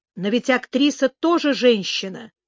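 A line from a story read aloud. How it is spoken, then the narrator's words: Cold objection. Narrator (Russian): холодно возразил он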